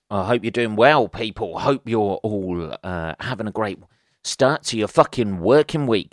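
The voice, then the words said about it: Quiet, low-key late-night voice. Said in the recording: “my voice is a little low-key, I guess”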